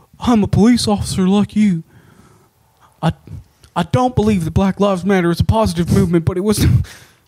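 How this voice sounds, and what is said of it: Imitates another person's voice. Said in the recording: “you would know how fucking good my impersonation of it”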